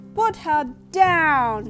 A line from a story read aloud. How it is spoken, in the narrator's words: shouted Issy with all his might